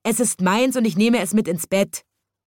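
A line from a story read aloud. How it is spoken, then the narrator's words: Boy screams angrily. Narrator (German): schrie ein Junge zornig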